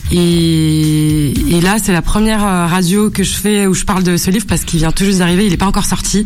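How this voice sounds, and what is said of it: Algerian-accented French. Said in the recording (French): “Vous avez un accent algérien”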